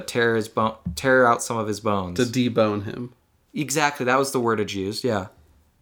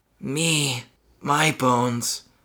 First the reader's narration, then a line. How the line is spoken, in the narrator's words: Marty muttered